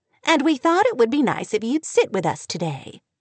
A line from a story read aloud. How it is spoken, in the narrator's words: Sally said warmly